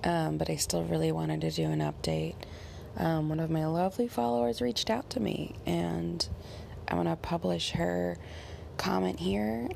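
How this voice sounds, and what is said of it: Slightly off, sick-sounding voice. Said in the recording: “My voice is a little out of it today ... I've been having bronchitis”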